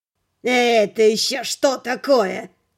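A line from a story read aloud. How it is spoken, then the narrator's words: Loud surprise. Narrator (Russian): громко удивился он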